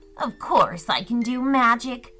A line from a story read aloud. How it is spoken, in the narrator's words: grumbled Gretchen